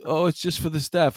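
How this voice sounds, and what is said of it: Put-on Mexican accent. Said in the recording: “What accent was that? ... That was my Mexican accent.”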